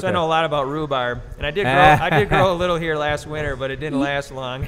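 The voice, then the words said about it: Slight Minnesota accent. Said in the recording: “Minnesota ... I could hear that in your accent a little bit.”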